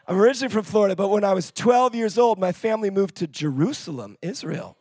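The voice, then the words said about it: American accent, not British. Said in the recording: “you can probably tell from my accent, I'm not even from the United Kingdom. I'm originally from Florida.”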